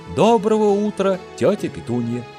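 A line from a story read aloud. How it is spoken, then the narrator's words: Heavy sigh, then speaking. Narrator (Russian): Гарри тяжело вздохнул, произнес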